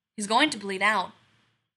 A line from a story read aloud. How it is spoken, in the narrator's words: McCoy says gravely